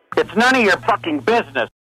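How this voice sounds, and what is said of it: Upset, angry voice. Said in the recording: “you sound very upset.”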